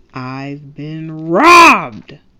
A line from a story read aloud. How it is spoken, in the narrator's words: the Grinch snarled